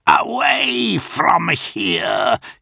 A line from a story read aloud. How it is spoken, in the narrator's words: he hissed over the screaming engines and streaming wind